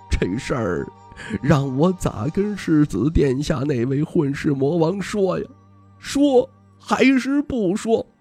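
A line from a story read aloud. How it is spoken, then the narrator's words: Old man's heavy sigh. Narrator (Chinese): 老道士重重叹息一声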